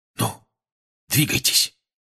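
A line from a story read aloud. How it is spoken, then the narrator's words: Whispering. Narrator (Russian): шепнул Фред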